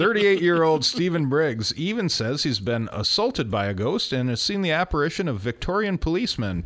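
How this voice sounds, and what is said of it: Usual voice. Nothing is said of it.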